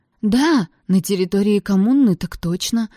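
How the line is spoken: Horrified breathless gasp. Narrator (Russian): в ужасе выдохнула Брианна

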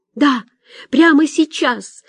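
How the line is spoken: Shouted. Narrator (Russian): выкрикнула Соня

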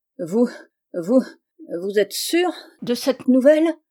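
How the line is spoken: Stammered. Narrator (French): balbutia Gregson

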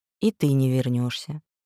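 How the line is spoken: Calm addition. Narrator (Russian): увидев, как переменилась в лице внучка, Авигея спокойно добавила

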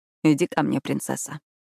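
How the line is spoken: Soft tender call. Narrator (Russian): тихо позвал Итан

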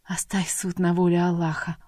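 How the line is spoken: Whisper. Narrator (Russian): прошептала Айша

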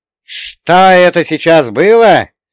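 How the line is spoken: Shocked exclamation, goddess. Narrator (Russian): потрясенно воскликнула богиня стужи

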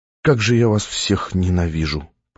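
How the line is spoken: Whisper. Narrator (Russian): прошептал я

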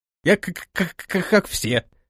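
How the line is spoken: Stammering reply. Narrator (Russian): заикаясь, ответил тот

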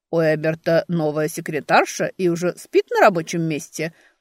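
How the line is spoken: Chuckling remark. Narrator (Russian): хохотнул кто-то

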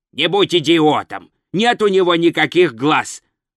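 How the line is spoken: Barked. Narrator (Russian): рявкнул Коэн

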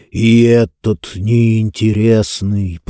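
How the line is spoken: Creaky voice. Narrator (Russian): проскрипел он

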